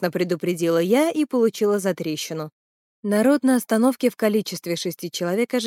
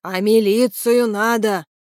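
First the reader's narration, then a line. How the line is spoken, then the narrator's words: Old man barking. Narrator (Russian): рявкнул дед в шляпе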